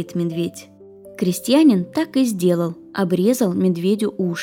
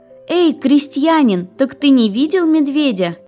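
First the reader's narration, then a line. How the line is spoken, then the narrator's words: Shouting again. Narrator (Russian): женщина снова закричала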